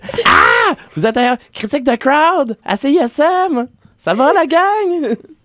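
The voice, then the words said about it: Imitates another person's voice. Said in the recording (French): “je vais essayer de faire une imitation de Jolaine Ruet”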